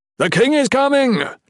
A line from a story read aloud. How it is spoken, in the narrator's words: Gerund yelled